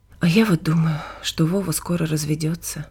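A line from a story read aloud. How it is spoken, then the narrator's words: Sighing. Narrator (Russian): вздохнула Нина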